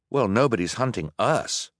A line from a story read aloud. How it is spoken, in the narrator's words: Duncan said